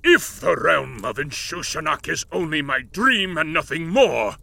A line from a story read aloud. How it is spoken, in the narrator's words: he said, his tone crackling with menace